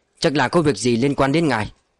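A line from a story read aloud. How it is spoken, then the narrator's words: Cold reply. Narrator (Vietnamese): Victor lạnh lùng trả lời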